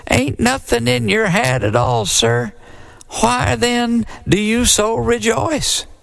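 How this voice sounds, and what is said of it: Quivery little voice. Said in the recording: “in a quivery little voice”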